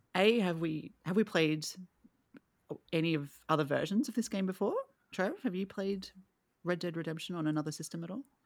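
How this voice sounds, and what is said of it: Speaker with a twangy accent. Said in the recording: “It's my accent. It's my twang.”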